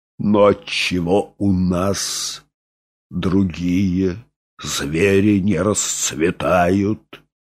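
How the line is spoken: Plain. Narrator (Russian): спросил директор

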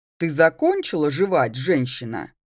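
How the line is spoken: Almost menacing. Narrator (Russian): Выдал практически грозно

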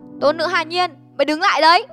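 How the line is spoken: Shout. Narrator (Vietnamese): tiếng hét

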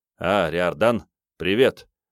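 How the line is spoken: Absent-minded, offhand. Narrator (Russian): рассеянно бросил Эверт

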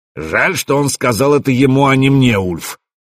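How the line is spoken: Loud. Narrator (Russian): громко произнес Свартхёвди

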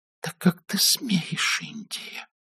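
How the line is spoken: Quiet, trembling with anger. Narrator (Russian): произнесла тихо, дрожащим от гнева голосом

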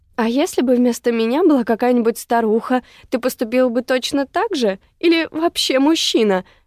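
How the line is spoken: Guttural, verging on hysterical laughter. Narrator (Russian): У нее невольно вырвалось гортанное начало готового прорваться истерического хохота

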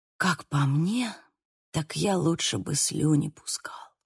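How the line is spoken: Whisper. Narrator (Russian): прошептал Лука

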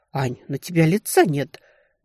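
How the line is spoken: Agitated breathless exhale. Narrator (Russian): взволнованно выдохнула Даша

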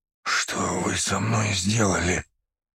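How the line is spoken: Slow groggy muttering. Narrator (Russian): Медленно процедил он, видимо, приходя в себя

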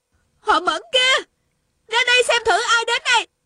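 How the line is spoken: Shouting. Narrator (Vietnamese): Tiêu Uyển Nhi la lên

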